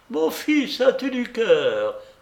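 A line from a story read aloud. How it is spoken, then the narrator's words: Exclaiming while laughing harder. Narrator (French): s'écria-t-elle en riant de plus belle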